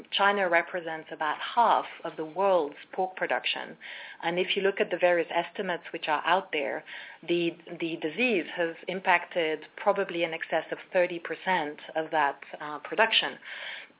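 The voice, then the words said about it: Croaky voice. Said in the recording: “my voice is a bit croaky today.”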